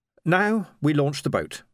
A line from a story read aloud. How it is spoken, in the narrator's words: said Kin firmly